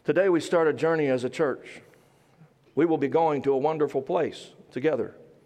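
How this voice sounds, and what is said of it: Southern American accent. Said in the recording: “Southern accent and all”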